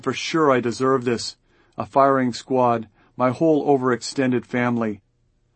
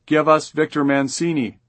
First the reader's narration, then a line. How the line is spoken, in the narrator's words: And someone else shouts